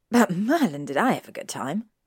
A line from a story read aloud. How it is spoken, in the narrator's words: Harry groaned